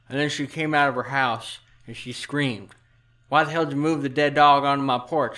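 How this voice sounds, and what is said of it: Possible Southern accent, muffled mouthful speech. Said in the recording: “doing an accent? Southern accent, maybe? Sounded like he had something in his mouth”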